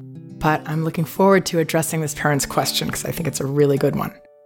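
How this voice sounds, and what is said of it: Sick, weakened voice. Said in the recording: “as you can hear in my voice, I'm a little under the weather as well. ... I have not even been able to be understood speaking or uh, make the words come out uh, very well.”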